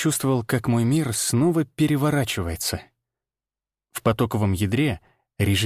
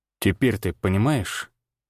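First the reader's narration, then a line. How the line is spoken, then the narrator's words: Quiet. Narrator (Russian): тихо сказал Всеволод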